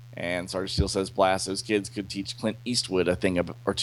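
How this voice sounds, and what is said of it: Usual voice. Nothing is said of it.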